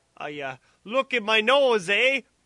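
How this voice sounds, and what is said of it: Put-on Canadian accent. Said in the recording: “speak like a Canadian”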